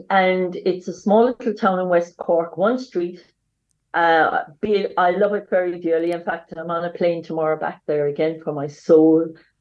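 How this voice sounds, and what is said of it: Irish accent. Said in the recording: “as you can hear my accent, I'm Irish”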